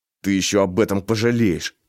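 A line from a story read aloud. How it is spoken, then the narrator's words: Through gritted teeth. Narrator (Russian): проговорил сквозь зубы Гапон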